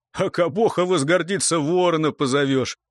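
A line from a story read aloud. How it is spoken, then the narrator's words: Laughing. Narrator (Russian): засмеялся Хотен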